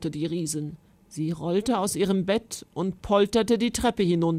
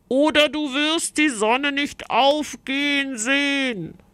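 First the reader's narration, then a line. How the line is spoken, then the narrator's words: Knight calling out. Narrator (German): rief die Ritterin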